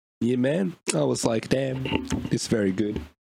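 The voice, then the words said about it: Put-on Jamaican accent. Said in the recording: “that's a Jamaican accent ... talking like the trolls”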